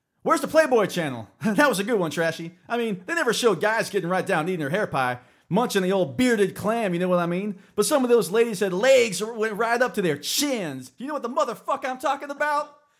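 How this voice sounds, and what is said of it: Character voice impression. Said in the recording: “my best Kid impersonation”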